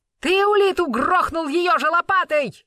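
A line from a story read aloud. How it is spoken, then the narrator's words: Yelled. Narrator (Russian): заорал он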